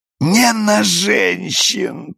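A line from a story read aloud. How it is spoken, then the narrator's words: Moan. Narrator (Russian): простонал мистер Рейси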